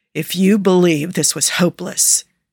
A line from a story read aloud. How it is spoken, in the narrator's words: he says through clenched teeth